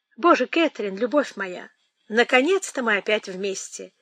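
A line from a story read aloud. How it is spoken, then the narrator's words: Exclaimed. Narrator (Russian): воскликнула она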